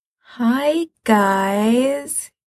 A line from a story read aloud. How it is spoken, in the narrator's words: he says weakly